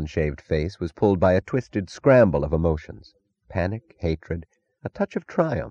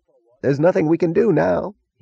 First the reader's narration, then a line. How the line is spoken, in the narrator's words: he moaned